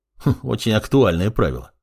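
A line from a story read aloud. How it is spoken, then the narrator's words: Wry snort. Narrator (Russian): хмыкнул Плевок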